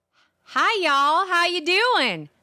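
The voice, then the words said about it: Put-on Texas accent. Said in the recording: “the number one sexiest accent in America ... It's from Texas.”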